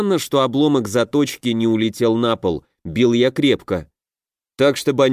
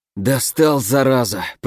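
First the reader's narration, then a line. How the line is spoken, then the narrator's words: Pained groan. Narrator (Russian): простонал Фурсов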